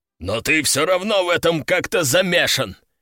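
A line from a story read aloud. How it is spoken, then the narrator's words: Growled. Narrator (Russian): прорычал Лежаков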